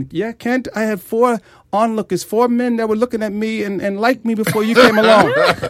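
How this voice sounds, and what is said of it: Put-on Jamaican accent. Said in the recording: “she goes into that Jamaican accent.”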